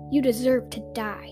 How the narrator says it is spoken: he spat

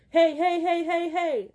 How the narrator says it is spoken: they pound on the bar and yell

